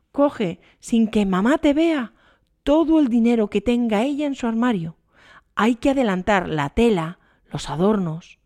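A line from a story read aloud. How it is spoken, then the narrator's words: Pleading, voice breaking. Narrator (Spanish): supliqueó Germana con voz rota por la emoción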